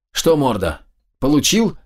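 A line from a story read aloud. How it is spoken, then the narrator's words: Vengeful shout. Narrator (Russian): мстительно прокричал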